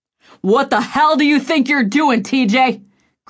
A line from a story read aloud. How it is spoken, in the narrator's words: Griffin shouted